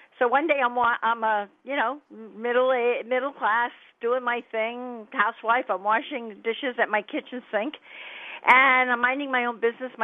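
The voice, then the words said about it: New York New Jersey accent. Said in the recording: “from the New York, New Jersey area, which everybody can probably tell from my accent ... what New York, New Jersey accent sounds like”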